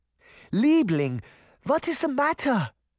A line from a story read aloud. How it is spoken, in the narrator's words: Granny begged